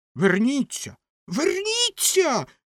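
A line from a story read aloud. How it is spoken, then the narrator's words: Shrill scream. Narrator (Ukrainian): заверещала ракета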